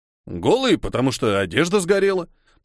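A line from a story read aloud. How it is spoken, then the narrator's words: Grumbling mutter. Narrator (Russian): пробурчал Хильдефон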